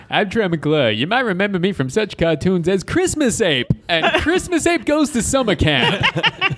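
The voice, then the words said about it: Cartoon TV host character voice. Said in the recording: “That's probably the best impression I've ever heard ... that was really good. Off the cuff, too.”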